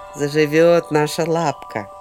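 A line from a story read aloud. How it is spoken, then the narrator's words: Happy. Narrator (Russian): радостно сказал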